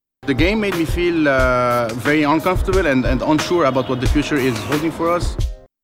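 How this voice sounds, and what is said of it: French accent. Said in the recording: “I think that's a French accent.”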